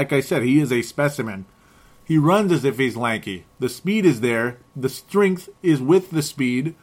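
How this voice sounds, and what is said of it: Usual voice. Nothing is said of it.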